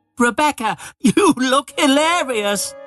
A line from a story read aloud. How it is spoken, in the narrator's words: Thomas laughed